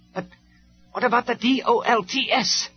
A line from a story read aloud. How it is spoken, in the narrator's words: shouted Starscream